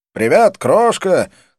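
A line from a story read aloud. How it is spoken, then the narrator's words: Shout, exaggerated American accent. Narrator (Russian): крикнул я с утрированным американским акцентом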